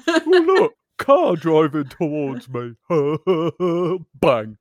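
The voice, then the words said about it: Imitates a pheasant. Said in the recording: “That's my best pheasant impression... it was good”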